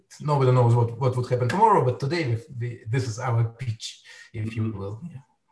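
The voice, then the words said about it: Eastern European accent. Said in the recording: “judging from your accent, you're not from Canada. I would assume you're from Eastern Europe.”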